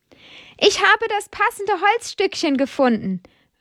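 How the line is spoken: Calls out. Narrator (German): ruft er Amadeus zu

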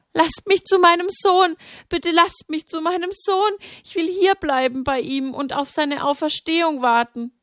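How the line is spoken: Pleading on knees. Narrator (German): sank vor dem Stein zu Boden und flehte

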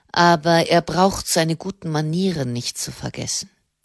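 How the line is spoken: Cold. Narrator (German): meinte der Generalmeister kalt

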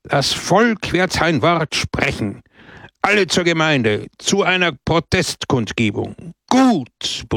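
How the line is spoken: Crowd roaring. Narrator (German): brüllte das Volk

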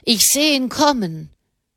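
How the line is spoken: Called down. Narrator (German): rief der Mann herunter

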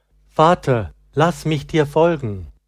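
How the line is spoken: Calling out. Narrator (German): rief

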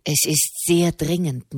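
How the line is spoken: Man murmuring. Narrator (German): murmelte er

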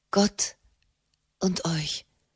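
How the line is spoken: Shaken murmur. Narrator (German): murmelte Frau Raimund erschüttert

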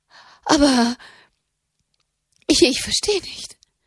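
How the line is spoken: Stammered. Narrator (German): stammelte Katharina

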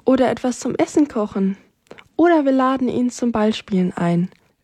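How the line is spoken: Plain. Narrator (German): sagte Rosi

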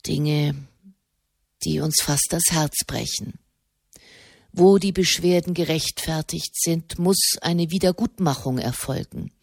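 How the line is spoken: Quiet. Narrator (German): sprach er leise

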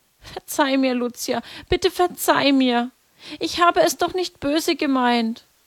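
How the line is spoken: Weeping, pleading. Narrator (German): begann auch Jacinta zu weinen, flehte

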